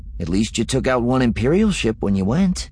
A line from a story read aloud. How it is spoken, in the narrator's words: Wedge said cheerfully